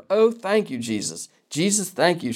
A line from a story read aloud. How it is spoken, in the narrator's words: cried aloud